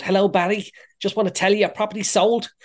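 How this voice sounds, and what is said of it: Put-on Liverpool accent. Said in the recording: “the lady that works in the office in Liverpool ... I put on the accent”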